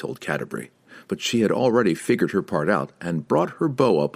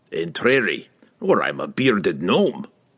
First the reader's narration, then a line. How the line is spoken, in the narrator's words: Brunner grumbled